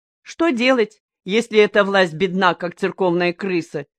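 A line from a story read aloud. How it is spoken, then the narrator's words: Laughing. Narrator (Russian): смеялся Юлту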